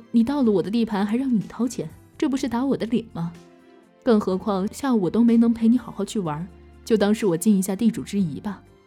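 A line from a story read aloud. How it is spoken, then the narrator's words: Smiling. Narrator (Chinese): 我笑着说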